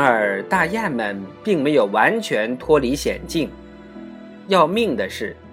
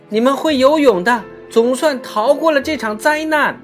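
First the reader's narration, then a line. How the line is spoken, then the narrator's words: Desperate crying birds. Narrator (Chinese): 那些狂风席卷而去的可怜的陆地鸟类，极度的呼喊道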